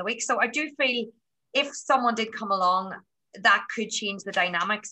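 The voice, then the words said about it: Irish accent. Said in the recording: “as soon as they hear my accent ... oh, you're Irish”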